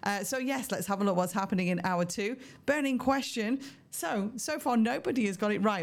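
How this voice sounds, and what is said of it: Throaty, strained voice. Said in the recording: “Apologies for my voice again today. Have a bit of a throaty thing going on. ... losing my voice completely”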